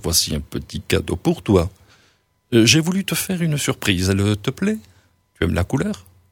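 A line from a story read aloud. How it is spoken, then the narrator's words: Casual offhand voice. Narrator (French): dira-t-il d'une voix désinvolte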